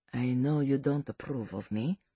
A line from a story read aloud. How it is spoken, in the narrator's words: Salvatore said to him, his voice lowered